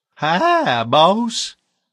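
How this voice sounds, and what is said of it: Loud booming foghorn character voice. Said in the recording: “bellowed in his foghorn voice”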